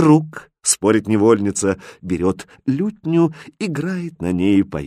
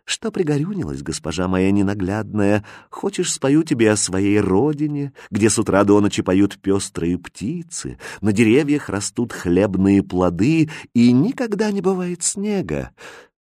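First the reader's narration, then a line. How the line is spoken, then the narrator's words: Tender, gentle speech. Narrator (Russian): одна черноглазая ласково так говорит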